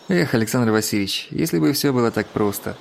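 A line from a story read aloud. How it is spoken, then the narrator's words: Sigh. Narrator (Russian): вздохнул Панкрашин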